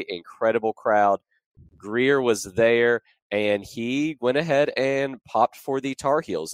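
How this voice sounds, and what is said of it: Hoarse, strained voice. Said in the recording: “my voice may sound a little bit off, it's because I lost it at that game yesterday”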